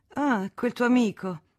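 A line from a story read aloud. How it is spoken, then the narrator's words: Scornful laughing exclamation. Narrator (Italian): esclamò la signora Moreau con una risatina di disprezzo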